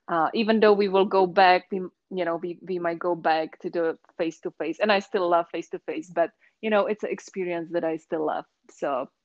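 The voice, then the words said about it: Slight Czech accent. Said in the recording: “is that a San Francisco accent? ... it's actually from the Czech Republic ... So you still hear the Czech accent, and just a little bit.”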